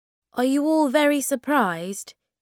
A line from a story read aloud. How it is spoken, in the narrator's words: he said